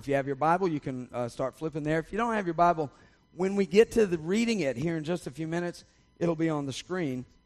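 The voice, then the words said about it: Raspy, hoarse voice. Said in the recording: “my raspy throat ... I have been dealing with the allergies”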